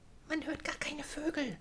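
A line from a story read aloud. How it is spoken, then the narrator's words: Whisper. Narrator (German): flüsterte Florentia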